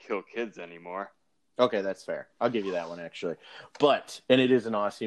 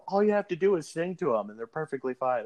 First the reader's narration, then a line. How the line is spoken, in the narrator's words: Dave's like yelling to the general